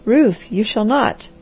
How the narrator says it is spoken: cried the man

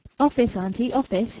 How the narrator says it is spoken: exclaimed

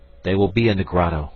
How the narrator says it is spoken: said Ernest

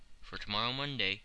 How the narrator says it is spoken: said Mr

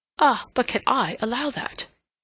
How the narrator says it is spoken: he exclaimed

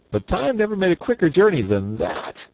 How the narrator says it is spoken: laughed Button Bright

